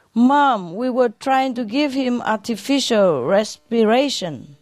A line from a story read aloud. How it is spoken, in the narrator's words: sobbed